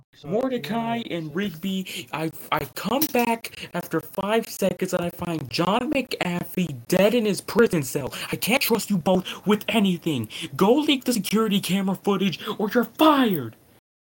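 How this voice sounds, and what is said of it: Cartoon character impression, angry boss voice. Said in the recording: “my best Benson impression”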